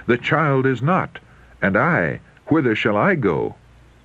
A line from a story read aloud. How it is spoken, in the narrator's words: In alarm and self-reproach, he rent his garments and sought his brothers, exclaiming